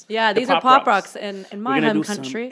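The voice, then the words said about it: Put-on British accent. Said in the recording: “Why do I keep going back to the British accent?”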